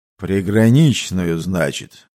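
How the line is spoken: Stern grumble. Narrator (Russian): сурово пробурчал усатый

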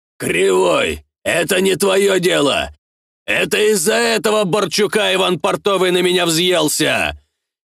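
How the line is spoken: Shouting. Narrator (Russian): кричал понтер

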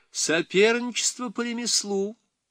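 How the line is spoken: Laughing. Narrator (Russian): он заметил, смеясь

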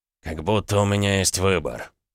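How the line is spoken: Gloomy. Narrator (Russian): мрачно ответил Дерешев

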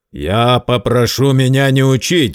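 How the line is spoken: Curt, spiteful. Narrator (Russian): злобно отрезал Герд

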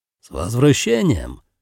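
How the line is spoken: Joyful greeting. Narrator (Russian): радостно поприветствовал его Нагара

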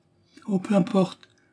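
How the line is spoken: Dismayed woman exclaiming. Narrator (French): s'écria la bonne nana, désolée de voir la déconfiture de sa protégée

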